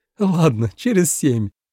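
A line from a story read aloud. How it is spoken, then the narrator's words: Laughing. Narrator (Russian): рассмеялась Юратя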